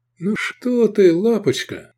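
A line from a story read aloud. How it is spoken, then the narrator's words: Affectionate. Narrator (Russian): сказал Сергей ласково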